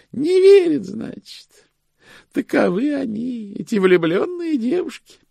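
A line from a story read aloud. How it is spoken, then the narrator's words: Sighing. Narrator (Russian): вздохнула госпожа Шик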